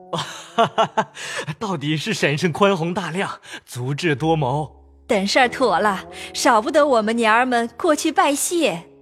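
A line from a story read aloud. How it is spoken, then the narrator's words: Laughing together. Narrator (Chinese): 尤氏、贾蓉一齐笑说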